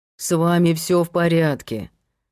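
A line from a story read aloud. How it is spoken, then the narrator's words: Grumbled. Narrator (Russian): проворчал Герман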